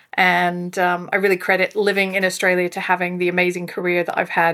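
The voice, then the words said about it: Non-Australian accent. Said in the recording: “as you can probably tell from the accent, not a local”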